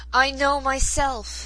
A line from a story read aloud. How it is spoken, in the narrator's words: cried